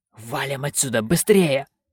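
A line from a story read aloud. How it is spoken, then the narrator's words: Hissing. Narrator (Russian): прошипел он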